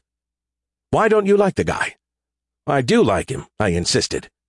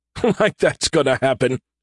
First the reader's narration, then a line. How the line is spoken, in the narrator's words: he chuckled